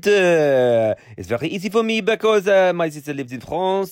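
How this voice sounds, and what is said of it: Put-on French accent. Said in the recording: “Can you do a French accent? ... Oui, I can do a French accent. ... Oh, that's quite good.”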